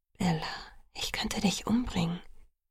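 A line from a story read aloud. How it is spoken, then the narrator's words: Whisper. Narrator (German): flüsterte er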